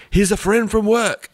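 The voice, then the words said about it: Put-on accent. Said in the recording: “Pretty good accent.”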